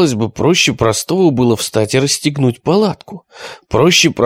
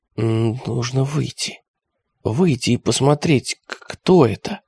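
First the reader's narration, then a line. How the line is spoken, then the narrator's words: Whispered. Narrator (Russian): Константинов прошептал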